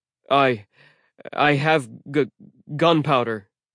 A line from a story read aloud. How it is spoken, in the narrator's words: TJ stuttered